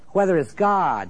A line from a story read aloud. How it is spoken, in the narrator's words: he cried